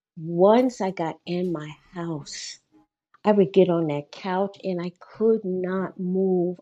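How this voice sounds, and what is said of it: Emotional, strained speaking voice. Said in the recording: “I'm sorry if I'm getting a little emotional”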